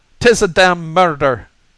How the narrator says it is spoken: O'Brien cried out

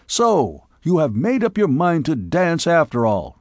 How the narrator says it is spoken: he shouted

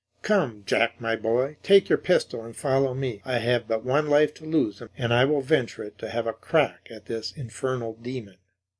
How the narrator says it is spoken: He exclaimed

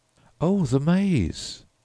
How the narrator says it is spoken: exclaimed Humphreys

